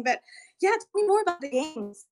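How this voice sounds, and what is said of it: Out of breath, huffing and puffing. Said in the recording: “I'm out of breath because I literally ran into my room ... So I'm like huffing and puffing.”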